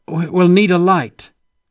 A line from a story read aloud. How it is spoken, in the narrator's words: Carl said loudly